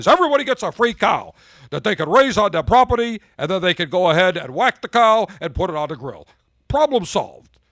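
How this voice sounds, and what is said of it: Imitates another person's voice. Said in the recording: “my Bernard Sanders impression”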